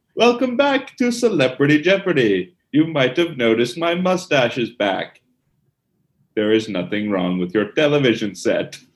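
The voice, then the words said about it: Straight-laced exaggerated Alex Trebek impression. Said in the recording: “Will Ferrell doing his Alex Trebek impression ... the straight-laced, exaggerated Alex Trebek”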